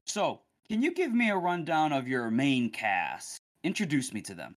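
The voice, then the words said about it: Put-on interviewer voice. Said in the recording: “You sound very interviewy, by the way, when you're reading these. You're putting on an accent.”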